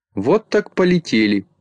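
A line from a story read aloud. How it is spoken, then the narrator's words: Laughing. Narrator (Russian): засмеялся Микроша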